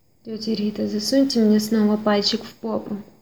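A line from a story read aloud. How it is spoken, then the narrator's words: Rasp. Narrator (Russian): прохрипел Артем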